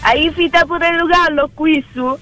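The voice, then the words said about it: Camerino dialect of central Italy. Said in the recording (Italian): “Dialetto di Camerino?”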